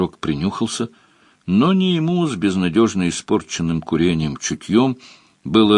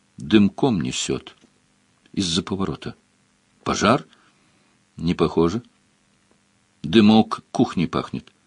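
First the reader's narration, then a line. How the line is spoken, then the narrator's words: Quiet. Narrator (Russian): Она тихо сказала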